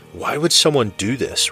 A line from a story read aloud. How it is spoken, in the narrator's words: Robert gasped, choking on his words